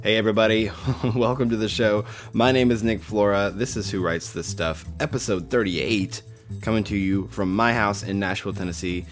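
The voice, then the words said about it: Low, just-woken-up voice. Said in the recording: “It's Saturday morning and I just woke up. That's why my voice is really low.”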